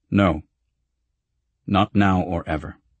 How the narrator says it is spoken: As firmly as I could, I said

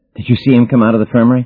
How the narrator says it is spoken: gasped Savvy

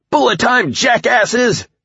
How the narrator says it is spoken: I shouted, giving a whoop

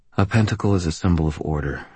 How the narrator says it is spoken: I said quietly

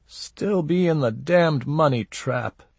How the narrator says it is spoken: he whined

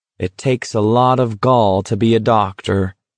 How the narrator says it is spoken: McVries said solemnly

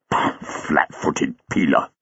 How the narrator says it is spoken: muttered

